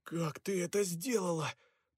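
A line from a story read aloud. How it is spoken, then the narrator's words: Hoarse croak. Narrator (Russian): прохрипел Перси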